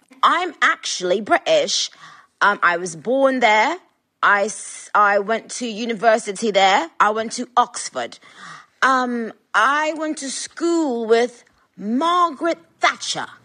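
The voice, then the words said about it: Weird put-on British accent. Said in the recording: “in like this weird, weird accent”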